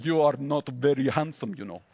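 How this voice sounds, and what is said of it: Bad German accent, Schwarzenegger attempt. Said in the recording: “That was a terrible German accent. ... I was like going for Schwarzenegger, and I wound up with Dolph Lundgren.”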